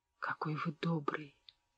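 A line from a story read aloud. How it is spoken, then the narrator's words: Quavering voice. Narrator (Russian): Дрогнувшим голосом проговорила она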